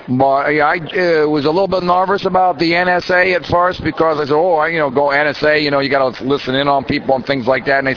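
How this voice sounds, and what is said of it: Southern US Georgia accent. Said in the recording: “I'm from the Georgia chapter, as you can tell from my accent”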